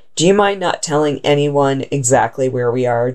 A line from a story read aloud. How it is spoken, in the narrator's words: Johnson asked